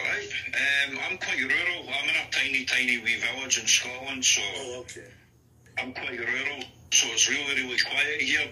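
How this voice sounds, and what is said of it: Mixed Scottish and English accent. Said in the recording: “my accent's just a mixture of loads of different areas, loads of different accents. ... Even Scottish people comment on my accent, and they can't actually pinpoint where I'm from.”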